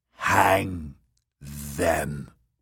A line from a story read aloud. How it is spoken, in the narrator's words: croaked